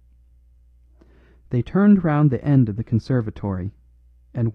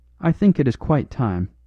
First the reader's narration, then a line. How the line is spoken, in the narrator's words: she said in a clear voice